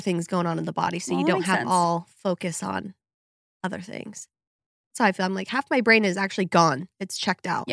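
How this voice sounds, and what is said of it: Hoarse, raspy voice from a cold. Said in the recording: “sorry about my voice. I know it's extra sexy today, but I caught a cold ... So sorry for the crassness.”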